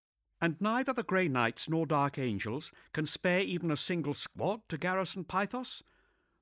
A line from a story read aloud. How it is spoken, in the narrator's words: The new governor's tone was insistent rather than pleading